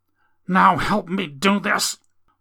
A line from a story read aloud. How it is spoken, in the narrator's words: With a groan